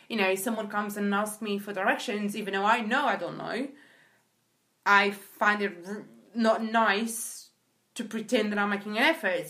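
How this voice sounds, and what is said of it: British-influenced accent. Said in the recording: “There's parts of me that are very British ... Apparently the accent is one of them”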